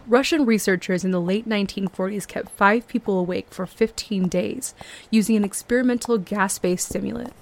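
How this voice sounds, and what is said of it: Theatrical dramatic reading voice. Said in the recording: “put on my theater voice ... read this to you in a way that I've never read to you before”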